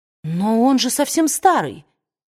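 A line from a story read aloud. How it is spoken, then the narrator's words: Exclaiming. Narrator (Russian): воскликнула Скарлетт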